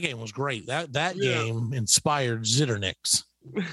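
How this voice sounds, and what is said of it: Usual voice. Nothing is said of it.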